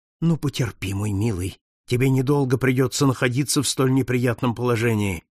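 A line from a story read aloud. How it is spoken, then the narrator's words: Muttered. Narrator (Russian): пробормотал Пинкертон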